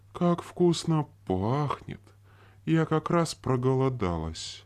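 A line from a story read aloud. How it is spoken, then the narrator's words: Wild inhuman giggling. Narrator (Russian): продолжая хихикать своим диким, нечеловеческим голосом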